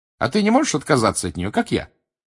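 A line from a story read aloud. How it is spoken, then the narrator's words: Cheerful question. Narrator (Russian): бодро спросила Гермиона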